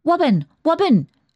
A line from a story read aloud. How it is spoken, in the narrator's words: shouted the child suddenly